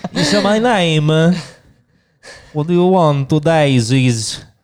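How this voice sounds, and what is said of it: Borat impression accent. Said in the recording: “Another accent if you want me to ... My name is Borat”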